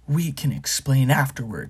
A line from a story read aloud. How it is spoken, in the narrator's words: snarled Black